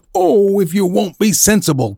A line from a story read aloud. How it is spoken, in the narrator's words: cried the boy